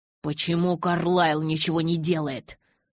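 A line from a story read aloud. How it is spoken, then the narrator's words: Growled. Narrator (Russian): прорычал я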